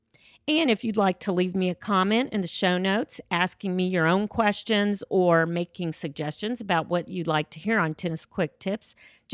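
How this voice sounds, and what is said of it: Sick, slightly off voice. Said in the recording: “you can probably tell I've been a little bit sick lately and my voice isn't 100%”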